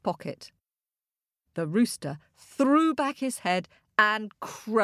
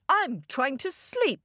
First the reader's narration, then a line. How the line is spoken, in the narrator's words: roared the king